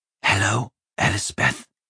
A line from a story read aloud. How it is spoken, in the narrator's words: said quietly